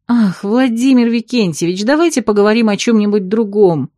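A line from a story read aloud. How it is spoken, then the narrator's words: Pleading. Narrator (Russian): взмолилась я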